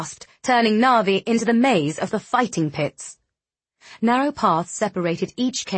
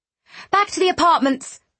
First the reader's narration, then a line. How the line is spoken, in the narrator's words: Narvi cried